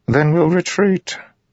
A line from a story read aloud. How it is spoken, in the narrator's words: Sadius said with a sigh